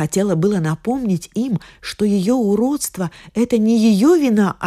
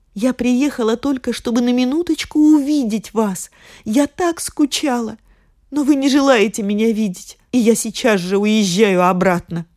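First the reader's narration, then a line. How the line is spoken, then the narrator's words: Tearful. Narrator (Russian): Бедная Дорагли сквозь слезы сказала им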